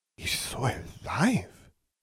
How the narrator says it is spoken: she whispered

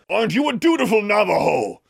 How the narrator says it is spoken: John yelled, this time from somewhere out in the desert

